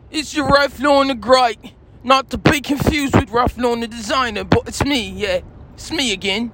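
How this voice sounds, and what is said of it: Put-on British accent. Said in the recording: “I'm British, and once again, of course, I'm better than you guys, because I speak with a British accent.”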